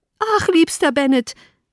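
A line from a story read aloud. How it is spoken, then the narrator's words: Eager exclamation. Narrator (German): rief sie beim Eintreten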